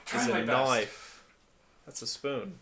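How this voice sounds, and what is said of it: Well-done put-on Australian accent. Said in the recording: “the Australian ... That's like the first accent I've ever like actually heard you kind of nail.”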